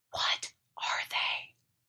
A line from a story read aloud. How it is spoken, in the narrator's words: I whispered, half afraid I'd draw them my way again if I spoke any louder